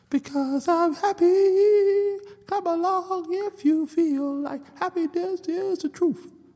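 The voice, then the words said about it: Singing in falsetto. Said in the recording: “falsetto”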